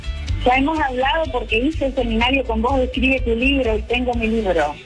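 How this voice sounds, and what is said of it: Argentine Spanish accent. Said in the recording (Spanish): “¡Qué hermoso acento! ¡Amo el acento argentino!”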